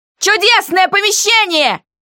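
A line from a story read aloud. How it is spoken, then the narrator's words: Shouting with all strength. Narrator (Russian): Закричала я изо всех сил, чтобы мой голос дошел до него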